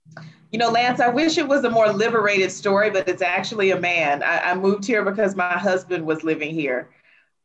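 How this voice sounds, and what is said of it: Alabama Southern US accent. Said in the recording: “So my accent is from Alabama in the United States ... your accent, as you said, is from Alabama”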